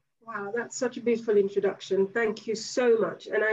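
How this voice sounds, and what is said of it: Usual voice. Nothing is said of it.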